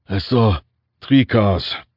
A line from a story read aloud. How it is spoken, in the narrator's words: Tuvia said, his voice raspy